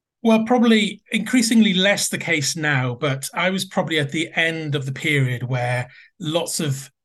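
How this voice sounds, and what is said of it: Soft Welsh accent, somewhat posh. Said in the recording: “if I can detect the accent correctly, does it begin in Wales? ... they all think I sound very posh in English”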